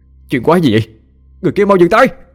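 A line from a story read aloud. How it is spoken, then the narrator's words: Shout. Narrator (Vietnamese): tiếng hét của anh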